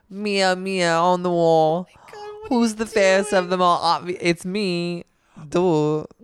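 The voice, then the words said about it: Poor attempt at Jersey accent. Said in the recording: “what on earth is that sound you are making? That's not a Jersey accent. ... I thought I was really Jersey ... this is so bad ... It's so horrible”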